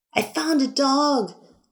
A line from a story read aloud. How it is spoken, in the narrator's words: yelled